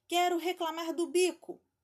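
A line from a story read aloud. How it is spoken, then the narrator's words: Exclaiming man. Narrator (Portuguese): exclamou ele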